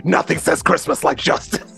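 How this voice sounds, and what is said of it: Gravelly Batman impression. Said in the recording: “I'll do the Batman voice.”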